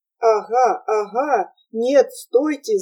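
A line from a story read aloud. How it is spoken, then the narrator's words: Loud laughter. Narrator (Russian): захохотал мистер Кук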